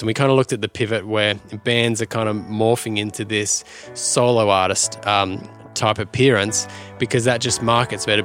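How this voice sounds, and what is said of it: Australian accent. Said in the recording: “Is my accent weird? ... I'm used to the Aussie.”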